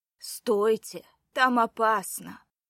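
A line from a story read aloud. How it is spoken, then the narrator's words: Hoarse woman's shout. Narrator (Russian): хрипло выкрикнула женщина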